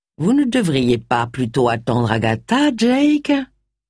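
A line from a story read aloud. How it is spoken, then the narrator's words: Sly, honeyed insinuation. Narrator (French): insinua Charles d'une voix doucereuse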